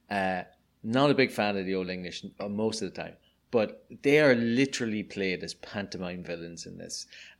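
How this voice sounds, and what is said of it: Irish accent. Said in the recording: “you may be able to tell from my accent, I'm Irish.”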